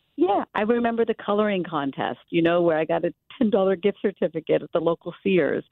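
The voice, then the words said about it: Emotional, choked-up voice. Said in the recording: “you can even hear it in my voice, right? ... You're getting emotional”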